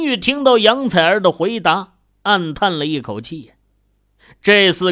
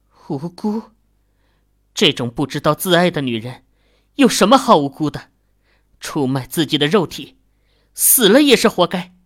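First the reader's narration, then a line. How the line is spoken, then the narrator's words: Sighing. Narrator (Chinese): 秦宇叹道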